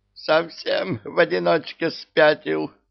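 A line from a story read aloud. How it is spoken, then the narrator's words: Shrill squeal. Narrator (Russian): взвизгнул Омар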